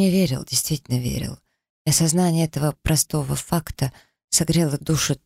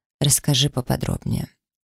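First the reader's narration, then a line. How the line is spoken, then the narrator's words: Completely calm. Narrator (Russian): совершенно спокойно произнес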